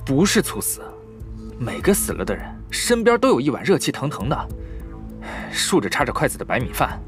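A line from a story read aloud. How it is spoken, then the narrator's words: Through gritted teeth. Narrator (Chinese): 白沧海咬牙切齿道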